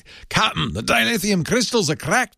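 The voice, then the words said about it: Scottish accent imitating Star Trek's Scotty. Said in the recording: “Scottish accent ... like the what's his name from Star Trek, James Doohan from Star Trek”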